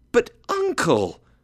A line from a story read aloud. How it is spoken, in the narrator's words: cried his nephew